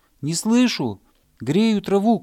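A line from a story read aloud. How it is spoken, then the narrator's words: Shouting hare. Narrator (Russian): крикнул заяц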